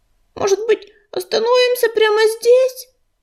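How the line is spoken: Pleading. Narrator (Russian): взмолилась Белочка

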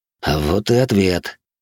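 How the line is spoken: Amused snort. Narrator (Russian): хмыкнул я

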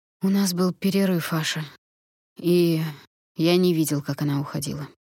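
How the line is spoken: Quiet confession. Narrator (Russian): тихо признался он

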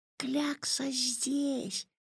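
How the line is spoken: Whisper. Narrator (Russian): прошептал Ваня

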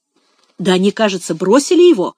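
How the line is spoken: Exclamation. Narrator (Russian): воскликнул Финиас

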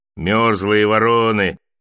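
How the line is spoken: Snorting. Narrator (Russian): хмыкнул он

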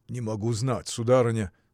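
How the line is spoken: Plain. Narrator (Russian): сказал Евсей

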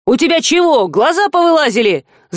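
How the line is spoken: Yelled by passing man. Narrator (Russian): заорал проходящий мимо мужчина

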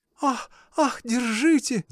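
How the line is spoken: Shouting. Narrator (Russian): закричала Марья Дмитриевна

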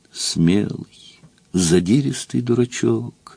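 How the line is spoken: Quiet. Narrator (Russian): сказала она все так же негромко

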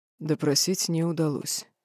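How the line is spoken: Hoarse. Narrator (Russian): хрипло произнес Хантер

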